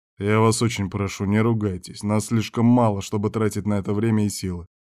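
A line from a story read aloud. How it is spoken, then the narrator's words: Plain. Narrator (Russian): сказал шеф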